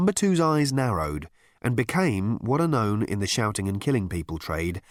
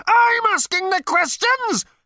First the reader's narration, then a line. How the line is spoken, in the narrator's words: howled Number Two, his body quaking with apoplectic fury